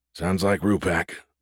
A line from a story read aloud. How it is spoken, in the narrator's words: Bosa muttered